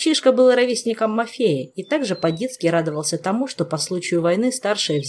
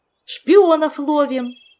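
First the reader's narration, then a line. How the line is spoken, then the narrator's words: Excited shout. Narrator (Russian): восторженно выкрикнул младший Менсор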